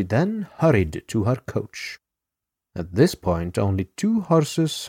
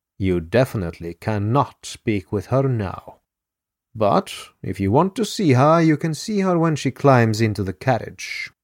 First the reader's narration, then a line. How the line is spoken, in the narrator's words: the lady replied evenly